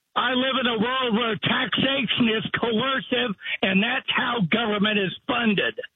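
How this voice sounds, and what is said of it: Yelling. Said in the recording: “What are you yelling at me for?”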